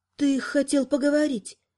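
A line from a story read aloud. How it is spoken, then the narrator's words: Quiet reminder. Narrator (Russian): тихо напомнила она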